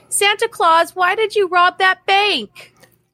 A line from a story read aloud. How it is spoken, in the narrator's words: a little boy called out